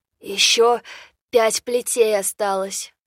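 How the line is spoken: Hoarse wheeze. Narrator (Russian): прохрипел тот

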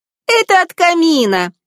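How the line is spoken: Exclaimed, then loud laughter. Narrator (Russian): воскликнула Анастасия и громко рассмеялась

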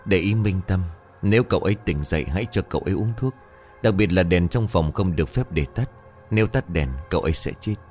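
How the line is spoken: Whisper. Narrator (Vietnamese): Lão ghé tai thì thầm với ông Viện

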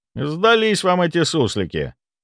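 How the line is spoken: Dismissive snort. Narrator (Russian): хмыкнул я

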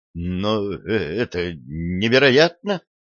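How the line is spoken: Stammering. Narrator (Russian): заикаясь, проговорил Питер

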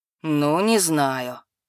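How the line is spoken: Drawn-out, doubtful. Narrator (Russian): недоверчиво протянул охранник

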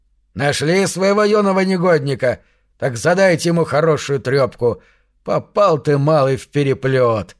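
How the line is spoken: Smirking snort. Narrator (Russian): хмыкнул

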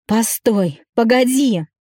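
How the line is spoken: Shouting after. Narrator (Russian): кричал ей вслед

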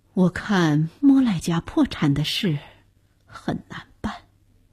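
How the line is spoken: Low voice. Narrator (Chinese): 钱太太 低声道

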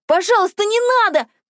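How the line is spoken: Shouted with all strength. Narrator (Russian): крикнула я, что было сил

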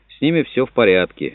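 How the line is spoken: Sudden burst of laughter. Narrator (Russian): Филипп Паркер неожиданно расхохотался

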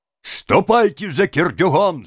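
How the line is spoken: Shouting. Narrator (Russian): закричали

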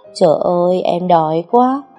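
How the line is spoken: Whining moan. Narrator (Vietnamese): rên rỉ

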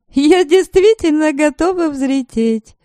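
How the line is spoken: Laughing. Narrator (Russian): рассмеялась Лиля

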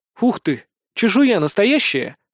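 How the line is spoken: Exclaiming. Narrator (Russian): воскликнула она

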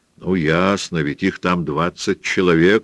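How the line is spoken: Plain. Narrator (Russian): сказал кто-то еще

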